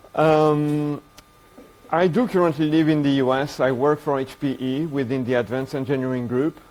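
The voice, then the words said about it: Strong French accent. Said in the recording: “I'm French. You can probably hear that through my very strong accent.”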